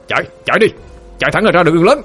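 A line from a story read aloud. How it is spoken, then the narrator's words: Loud shout. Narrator (Vietnamese): Armando hét lớn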